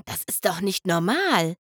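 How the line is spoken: Whispered. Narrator (German): flüsterte Lyra

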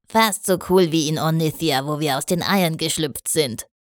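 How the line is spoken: Admitting with a giggle. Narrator (German): gab zu, kichernd

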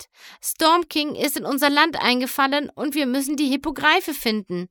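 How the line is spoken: Pleading. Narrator (German): flehte Twilight

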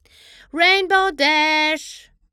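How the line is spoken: Impatient call. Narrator (German): rief er ungeduldig

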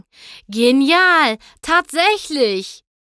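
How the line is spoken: Male calling out. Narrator (German): rief er

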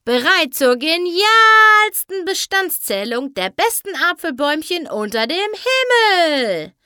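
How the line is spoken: Cheerful shout from afar. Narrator (German): schrie Pinkie schon von Weitem fröhlich

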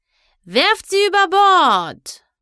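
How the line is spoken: Calling out. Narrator (German): rief

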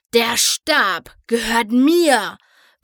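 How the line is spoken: Hairy beast's sudden roar. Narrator (German): brüllte auf einmal das haarige Biest

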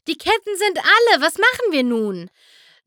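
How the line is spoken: Called out. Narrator (German): rief Twilight Sparkle

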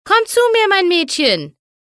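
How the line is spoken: Calling to a dog. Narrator (German): rief Applejack ihrer Hündin zu

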